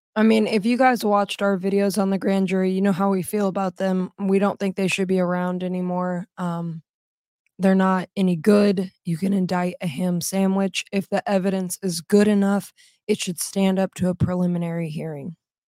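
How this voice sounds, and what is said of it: Hoarse, strained voice from oncoming illness. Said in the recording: “sorry, my voice. ... my voice is kind of messed up because I'm getting sick.”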